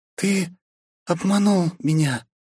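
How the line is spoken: Breathless exhale. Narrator (Russian): выдохнула княжна

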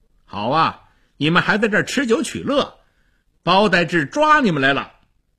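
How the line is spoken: Loud. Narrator (Chinese): 张骞他大声地说

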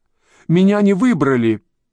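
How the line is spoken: Barking shout cracking high. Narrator (Russian): крикнула англичанка каким-то лающим голосом, сорвавшимся на высокой ноте

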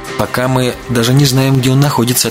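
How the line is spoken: Plain. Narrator (Russian): ответила Арина

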